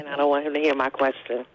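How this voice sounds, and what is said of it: Whispering. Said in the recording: “Why you sound like you're whispering? ... I'm whispering”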